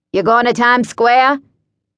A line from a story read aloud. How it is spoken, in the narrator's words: the man said in a slightly accented voice